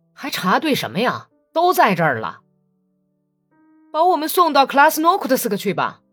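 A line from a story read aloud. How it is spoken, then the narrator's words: Reluctant prisoners shouting. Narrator (Chinese): 被俘的人都很不情愿地回答着，有几个人叫喊说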